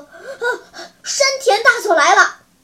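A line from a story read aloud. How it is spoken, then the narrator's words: Loud, panicked. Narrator (Chinese): 一个警备队慌慌张张从外面跑进来，大声说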